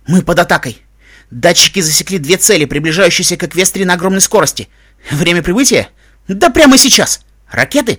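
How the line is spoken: Breathless. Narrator (Russian): выдохнула Эпплджек

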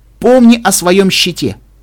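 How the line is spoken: Shouting. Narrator (Russian): закричал

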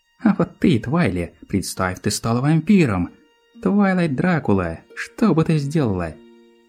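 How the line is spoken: Giggling. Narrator (Russian): Хихикала Пинки

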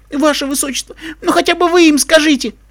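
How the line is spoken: Pleading. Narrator (Russian): Взмолился он Андуину

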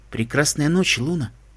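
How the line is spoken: Quiet reply. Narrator (Russian): также тихо отвечает Селестия

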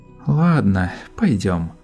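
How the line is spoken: Sigh, older sister. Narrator (Russian): вздохнула старшая сестра

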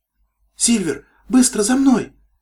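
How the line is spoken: Shouting. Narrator (Russian): закричала Свитибель

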